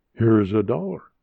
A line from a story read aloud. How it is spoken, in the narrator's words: said the dealer